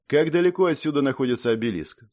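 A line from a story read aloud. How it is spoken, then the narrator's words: Plain. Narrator (Russian): спросил я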